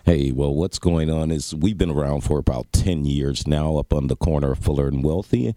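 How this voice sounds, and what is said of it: Smooth radio-style voice. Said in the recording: “does he have a radio voice ... or what? ... That's smooth, baby.”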